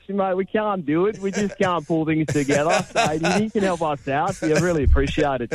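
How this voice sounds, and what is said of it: Mediocre put-on Australian accent. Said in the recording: “Do that in an Australian accent. ... That one wasn't quite as good as your Scottish one.”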